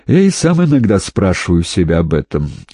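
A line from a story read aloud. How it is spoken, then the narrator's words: Sad. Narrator (Russian): грустно ответил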